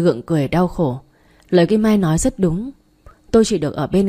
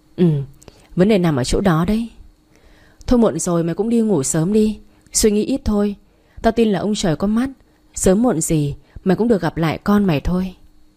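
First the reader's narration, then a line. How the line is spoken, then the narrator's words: Sighing reply. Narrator (Vietnamese): Tôi thở dài đáp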